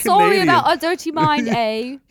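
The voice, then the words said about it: Bad put-on Canadian accent, sounds British. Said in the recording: “That was British. ... That was the worst Canadian accent ... ever. ... you're really not good at accents.”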